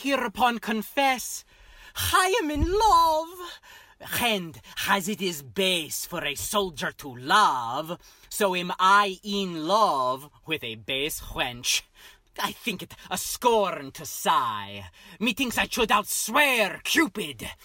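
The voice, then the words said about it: Outrageous theatrical put-on accent. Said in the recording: “this outrageous accent”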